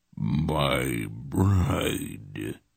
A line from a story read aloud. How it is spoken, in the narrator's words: he rasped in a horrid voice